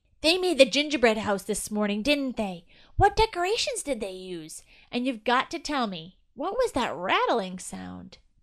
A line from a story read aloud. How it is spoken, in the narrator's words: Chili shouted to E and Jerry